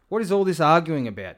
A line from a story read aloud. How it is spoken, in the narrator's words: Jesus asked